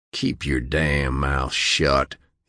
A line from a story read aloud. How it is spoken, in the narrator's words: he snarled